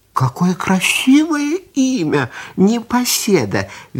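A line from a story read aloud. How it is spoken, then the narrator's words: Lamb's cheerful reply. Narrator (Russian): весело отозвался ягненок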